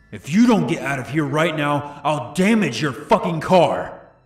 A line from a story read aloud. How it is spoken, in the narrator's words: He then screamed